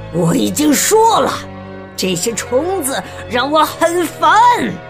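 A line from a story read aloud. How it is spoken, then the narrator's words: Shouting. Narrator (Chinese): 国王喊道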